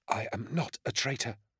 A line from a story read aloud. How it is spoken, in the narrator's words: whispered